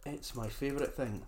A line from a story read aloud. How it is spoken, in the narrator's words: says the goblin